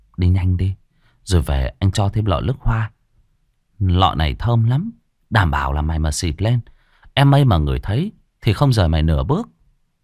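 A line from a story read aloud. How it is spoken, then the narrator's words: Urging. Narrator (Vietnamese): anh Thành thúc giục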